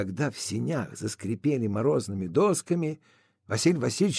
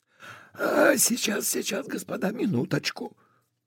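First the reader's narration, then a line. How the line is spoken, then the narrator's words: Hurried whisper. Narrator (Russian): Торопливо зашептали из сеней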